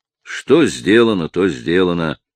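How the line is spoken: Heavy voice. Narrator (Russian): тяжелым голосом заключил Тремьен

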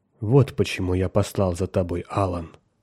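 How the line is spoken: Quiet. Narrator (Russian): тихо сказал он

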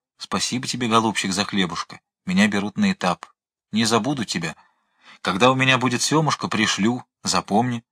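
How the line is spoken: Whispering. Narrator (Russian): Это помор шептал

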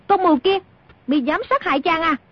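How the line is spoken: Angry shout. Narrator (Vietnamese): Nàng quát lên

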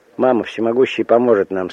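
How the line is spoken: Plain. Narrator (Russian): сказал Мойша

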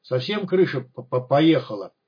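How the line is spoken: Nervous stuttering. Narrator (Russian): Когда Гриша волновался, то начинал заикаться

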